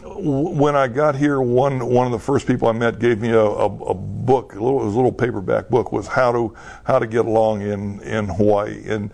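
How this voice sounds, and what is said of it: Texas twang accent. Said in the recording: “I still have that Texas twang.”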